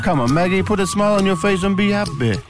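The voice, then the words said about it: Wacky put-on Jamaican accent. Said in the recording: “Even your wacky Jamaican accent.”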